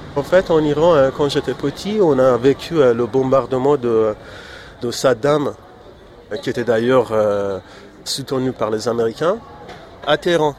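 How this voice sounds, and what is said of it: Light Iranian accent. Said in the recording (French): “Vous avez un léger accent. ... Alors, je suis iranien.”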